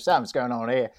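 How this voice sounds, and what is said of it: Put-on Australian accent. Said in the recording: “You've got to really say it with an Australian accent.”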